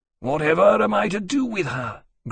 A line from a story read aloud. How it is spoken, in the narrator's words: Granby said, wearily